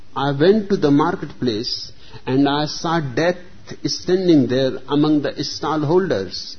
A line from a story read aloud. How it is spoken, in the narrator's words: exclaimed the servant